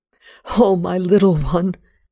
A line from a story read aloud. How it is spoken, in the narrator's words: I cried